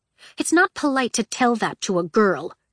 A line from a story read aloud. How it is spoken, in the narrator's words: she snapped